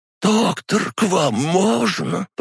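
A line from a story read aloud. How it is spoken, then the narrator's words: Wheezing rasp. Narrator (Russian): просипела она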